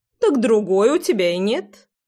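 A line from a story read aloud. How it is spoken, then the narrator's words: Chuckling old woman. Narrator (Russian): Хохотнула бабуля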